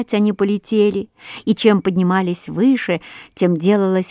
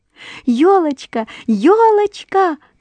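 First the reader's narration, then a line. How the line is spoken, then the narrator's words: Shouted. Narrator (Russian): крикнула она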